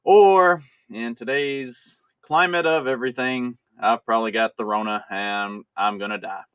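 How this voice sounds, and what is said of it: Congested voice from a head cold. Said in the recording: “my voice sounds a little bit different today ... getting to have a head cold”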